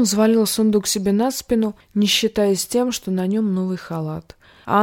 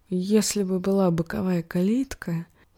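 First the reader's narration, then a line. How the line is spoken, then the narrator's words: Muttered. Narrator (Russian): пробормотал он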